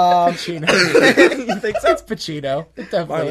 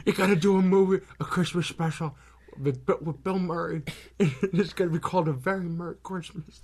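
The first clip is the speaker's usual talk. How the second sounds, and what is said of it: Marlon Brando impression. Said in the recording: “my Brando impression ... I never realized Marlon Brando sounded like that.”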